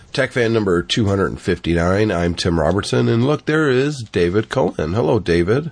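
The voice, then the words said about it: Congested, sick-sounding voice. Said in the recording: “Sorry about my voice ... You sound pretty bad ... It's a cold ... I was just completely congested”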